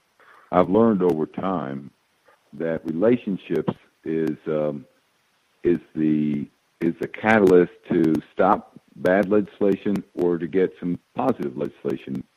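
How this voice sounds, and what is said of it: Southern American accent. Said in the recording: “I even detect a similar Southern accent”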